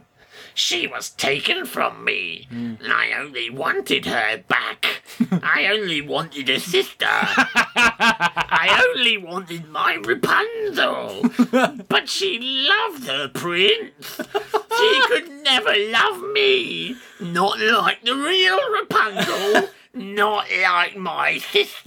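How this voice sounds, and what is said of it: Crying witch character voice. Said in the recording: “you've now created the fourth witch voice. ... The witch is crying.”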